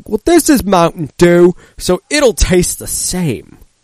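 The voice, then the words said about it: Imitates another person's voice. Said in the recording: “do my Brian Regan voice.”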